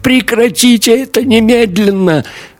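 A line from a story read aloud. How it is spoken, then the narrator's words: Wailing howl. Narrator (Russian): Мария взвыла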